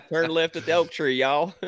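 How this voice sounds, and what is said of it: Exaggerated Southern country accent. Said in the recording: “trying to act like a country accent when he has a country accent”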